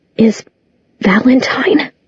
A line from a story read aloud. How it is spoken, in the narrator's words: Her voice shook